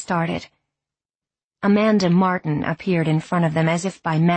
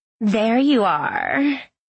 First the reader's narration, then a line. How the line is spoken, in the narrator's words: purred